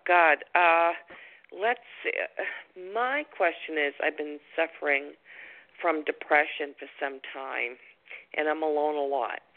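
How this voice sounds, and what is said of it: Boston accent. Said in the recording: “You sound like you're from the East Coast... I do have Boston accent”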